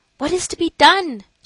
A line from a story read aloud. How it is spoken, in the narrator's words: she kept exclaiming